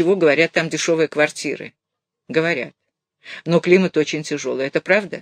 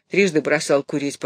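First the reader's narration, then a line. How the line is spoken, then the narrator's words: Grumbling. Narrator (Russian): проворчал он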